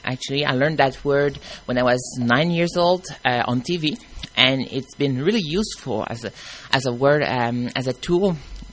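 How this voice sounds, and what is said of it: Strong French accent. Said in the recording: “my strong French accent.”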